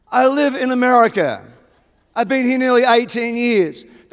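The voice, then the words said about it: Australian accent. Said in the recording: “the Australian one ... I'm an Australian.”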